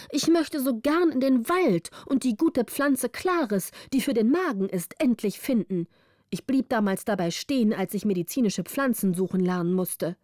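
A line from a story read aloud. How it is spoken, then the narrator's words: Called out. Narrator (German): rief Wilde Beere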